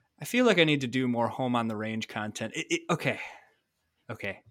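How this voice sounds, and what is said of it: Usual voice. Nothing is said of it.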